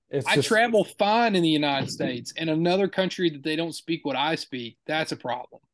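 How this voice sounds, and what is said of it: Thick twangy Appalachian accent. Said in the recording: “Appalachian ... thick of an accent ... as twangy as I am”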